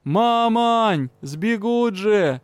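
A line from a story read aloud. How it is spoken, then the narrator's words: Yelling at top of lungs. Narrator (Russian): во все горло орал Юрао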